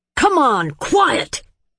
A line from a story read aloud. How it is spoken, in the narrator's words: Andre roared in a voice nobody knew he possessed